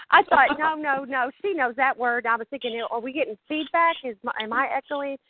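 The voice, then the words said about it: Strong Southern accent. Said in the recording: “a southern ... It's the southern accent ... your voice has changed ... sometimes my southern accent is stronger”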